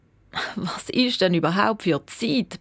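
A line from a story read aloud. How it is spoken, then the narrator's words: Tired dad mumbling. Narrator (German): brummelt der Papi noch müde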